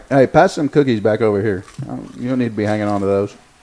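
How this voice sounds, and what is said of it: Stern dad voice. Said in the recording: “the dad voice came out”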